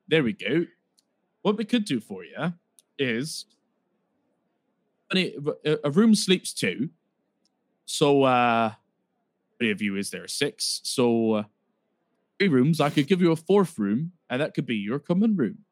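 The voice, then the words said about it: Wandering put-on West Country accent. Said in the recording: “His accent is going everywhere. ... You started off kind of West Country.”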